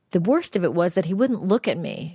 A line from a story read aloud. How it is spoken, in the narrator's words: said